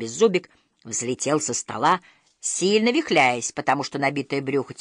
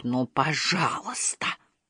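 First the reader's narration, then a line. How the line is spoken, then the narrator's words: Through clenched teeth. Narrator (Russian): процедил Икинг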